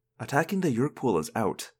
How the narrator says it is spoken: I muttered

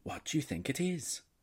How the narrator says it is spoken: whispers Fazer

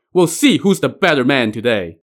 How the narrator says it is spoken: Huang Tianhua was indeed very much alive and shouting

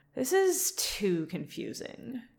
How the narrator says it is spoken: Cassie sighs

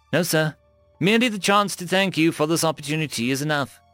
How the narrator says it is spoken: I said

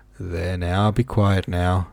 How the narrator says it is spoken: said the old man weakly

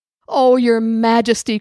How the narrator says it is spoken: cried Chicken Little

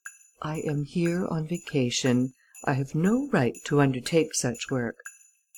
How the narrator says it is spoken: replied calmly

